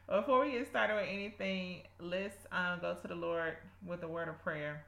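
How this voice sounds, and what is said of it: Strong South Georgia accent. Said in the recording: “Sorry if you hear my South Georgia accent. ... Today is coming out heavy and strong.”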